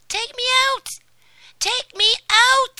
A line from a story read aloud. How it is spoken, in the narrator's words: Tom shouted in a shrill voice